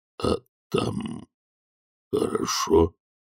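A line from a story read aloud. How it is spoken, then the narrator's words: Uncertain question. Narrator (Russian): неуверенно спросил Громадина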